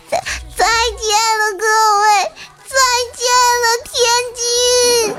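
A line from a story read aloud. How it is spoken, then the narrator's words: Child's desperate sobbing wail. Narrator (Chinese): 小朋友探出高层窗户，用撕心裂肺甚至绝望的哭腔持续高呼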